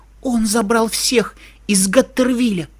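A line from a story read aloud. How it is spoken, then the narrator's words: Frightened hiss. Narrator (Russian): пошипела она испуганно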